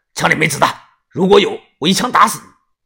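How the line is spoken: Loud voice. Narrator (Chinese): 于哥突然放下了猎枪，大声的说

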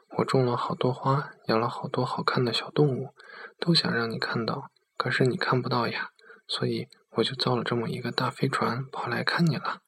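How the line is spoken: Child's murmur. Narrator (Chinese): 小男孩喃喃的说道

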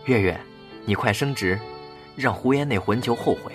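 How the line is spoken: Muttering. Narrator (Chinese): 老太太嘀咕

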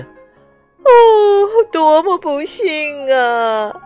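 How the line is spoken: Wailing. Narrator (Chinese): 忙碌小姐哀叫着

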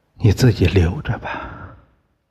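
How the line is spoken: Soft and sad. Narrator (Chinese): 林红哀伤的，轻声说

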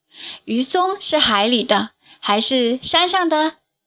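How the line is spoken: Loud question. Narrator (Chinese): 校长先生 大声地问孩子们

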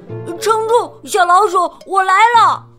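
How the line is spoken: Loud shout. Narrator (Chinese): 二飞大喊道

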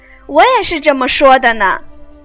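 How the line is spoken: Laughing. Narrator (Chinese): 金钏笑道

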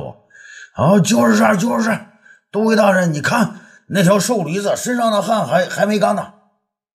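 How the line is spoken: Shouting. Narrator (Chinese): 一个士兵大叫

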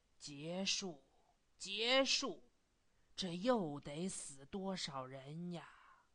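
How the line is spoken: Lamenting sigh. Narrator (Chinese): 慨叹着说

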